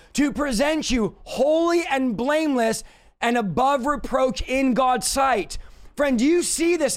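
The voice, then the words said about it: Shouting, excited preaching. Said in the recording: “you wonder why I'm shouting.”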